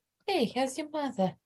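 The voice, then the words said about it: Put-on Spanish accent, old-lady sound. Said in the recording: “He only has one accent. This is his Spanish accent. ... This sounds like an old lady.”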